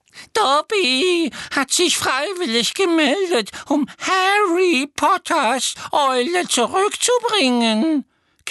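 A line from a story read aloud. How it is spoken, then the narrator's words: Admiring elf squeak. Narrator (German): quiekte der Elf mit einem Ausdruck unverhohlener Bewunderung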